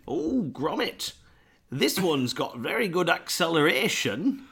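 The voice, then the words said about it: Bland Northern English accent. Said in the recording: “It's not really what Wallace sounds like. ... That's just a voice. ... That's just a bland North of England accent.”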